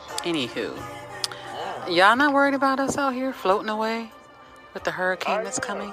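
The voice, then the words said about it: Radio announcer voice. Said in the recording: “She got the radio voice on, though. You got hear that? ... I should put the radio voice on ... the weather woman”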